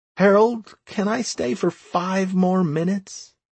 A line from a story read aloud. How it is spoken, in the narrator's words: I begged